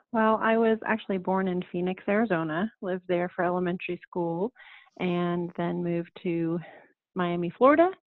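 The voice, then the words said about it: Non-Australian accent. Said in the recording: “she doesn't talk like an Aussie.”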